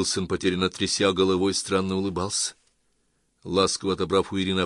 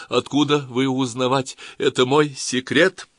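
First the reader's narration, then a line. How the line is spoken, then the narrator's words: Sobbing, growing louder. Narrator (Russian): Ее всхлипы становились все чаще и громче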